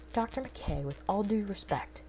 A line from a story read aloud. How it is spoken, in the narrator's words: Simpson snapped